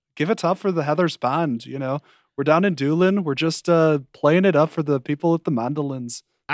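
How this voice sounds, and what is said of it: Put-on Irish accent. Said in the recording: “phrase to get into an Irish accent ... in this beautiful Irish accent”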